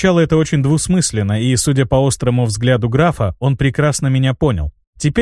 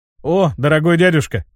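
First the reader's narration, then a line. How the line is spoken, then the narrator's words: Wry snort. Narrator (Russian): хмыкнул я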